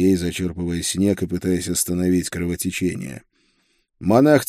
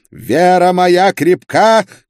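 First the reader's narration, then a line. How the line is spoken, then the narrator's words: Shouted. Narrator (Russian): крикнул инквизитор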